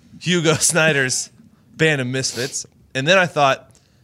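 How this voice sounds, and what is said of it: Usual voice. Nothing is said of it.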